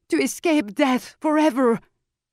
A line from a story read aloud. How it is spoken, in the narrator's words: Tijon cried